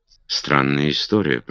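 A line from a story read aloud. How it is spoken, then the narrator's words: Muttering. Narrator (Russian): пробормотал он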